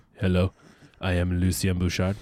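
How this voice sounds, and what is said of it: Deep-voiced Lucien Bouchard impression. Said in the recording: “I used to do a little Lucien as well ... A more of a deep voice”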